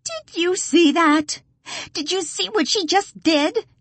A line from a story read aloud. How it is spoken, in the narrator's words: she whines to Felix